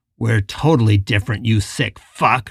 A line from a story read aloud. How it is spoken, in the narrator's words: Richard spat